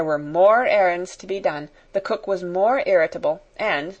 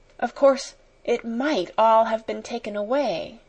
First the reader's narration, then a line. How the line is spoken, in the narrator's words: whispered, trying to be brave